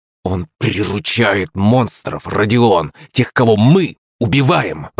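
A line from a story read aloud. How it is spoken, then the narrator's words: Hissed. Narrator (Russian): прошипел Артур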